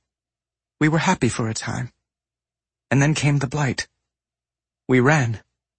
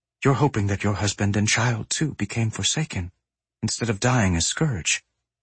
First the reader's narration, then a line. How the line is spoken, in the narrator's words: he said softly